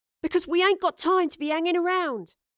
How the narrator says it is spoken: Astrid said loudly

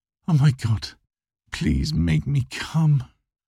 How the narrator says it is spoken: I moan

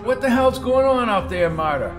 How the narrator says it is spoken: He yelled at her

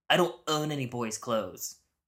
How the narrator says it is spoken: She snapped

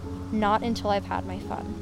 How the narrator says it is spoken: With a growing evil smile, whispered

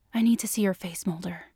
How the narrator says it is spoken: she whispered

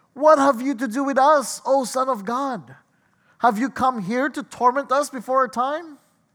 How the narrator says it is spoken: the demons cried out

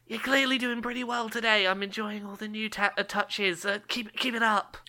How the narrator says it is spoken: Because I'm out, I just sort of like whisper over

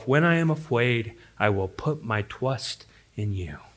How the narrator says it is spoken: quietly whispering to himself

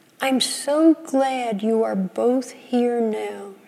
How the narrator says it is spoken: she said

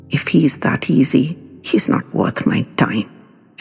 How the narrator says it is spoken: Rinki muttered venomously

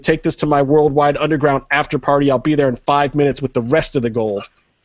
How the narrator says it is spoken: yells to PJ

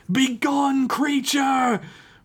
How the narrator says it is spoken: Redgrave screamed

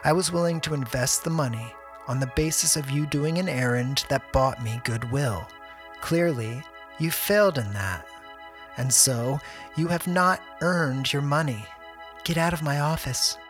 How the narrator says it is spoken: she said coldly

